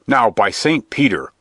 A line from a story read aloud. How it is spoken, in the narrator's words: growled the friar